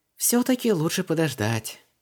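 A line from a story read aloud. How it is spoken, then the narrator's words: Sighing. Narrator (Russian): вздохнула Вон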